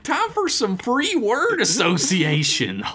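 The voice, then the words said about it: Put-on Southern American accent. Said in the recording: “you get all the Southern accents”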